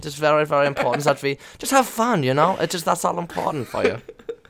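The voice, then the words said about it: Put-on German accent, done well. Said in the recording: “Damn, I should go to Germany. Damn, I'm good. I've been working on my accent... That's such a good accent.”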